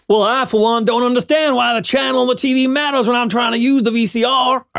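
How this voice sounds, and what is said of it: Put-on Southern accent. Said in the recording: “do your Southern accent again”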